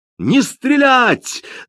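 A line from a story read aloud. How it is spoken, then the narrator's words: Yelling over ringing ears. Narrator (Russian): заорал Линли, пытаясь перекричать чудовищный звон в ушах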